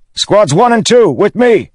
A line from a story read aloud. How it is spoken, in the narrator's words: he shouted